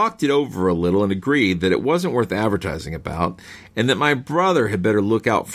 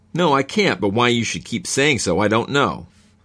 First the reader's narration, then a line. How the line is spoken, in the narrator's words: He said rather crossly